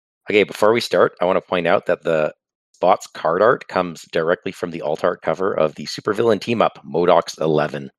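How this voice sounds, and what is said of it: Congested, sick-sounding voice. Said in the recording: “You'll have to excuse my voice. I'm getting over a head cold here.”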